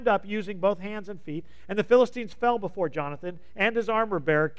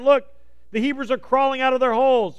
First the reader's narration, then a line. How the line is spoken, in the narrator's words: the Philistines saw them coming, they shouted